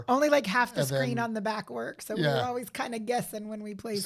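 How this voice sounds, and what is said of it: Voice slightly off from illness. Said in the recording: “My voice is coming back ... I sound a little funny, but it's coming back ... voice is off ... under the weather”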